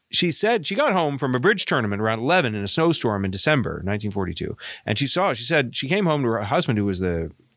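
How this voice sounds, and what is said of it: Maine accent. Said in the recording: “my Maine accent”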